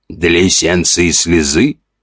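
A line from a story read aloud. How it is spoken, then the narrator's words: Skeptical snort. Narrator (Russian): хмыкнул тот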